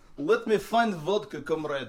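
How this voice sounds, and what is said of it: Put-on Russian accent. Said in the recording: “let's hear your Russian accent.”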